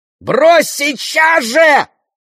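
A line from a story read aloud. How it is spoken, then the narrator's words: Screaming. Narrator (Russian): завопила Беатрис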